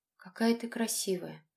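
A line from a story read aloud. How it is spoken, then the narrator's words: Bewildered mumble. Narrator (Russian): растерянно пробормотал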